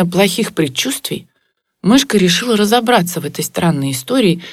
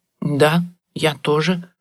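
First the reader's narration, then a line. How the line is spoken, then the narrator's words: Mumbled. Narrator (Russian): пробормотала мышка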